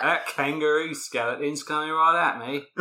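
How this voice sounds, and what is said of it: Put-on Australian accent. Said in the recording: “This is an Australian accent. ... Honestly, it's close. ... to an American, it sounds pretty accurate.”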